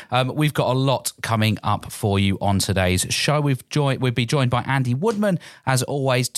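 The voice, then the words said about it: Voice going, hoarse. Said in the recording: “losing my voice”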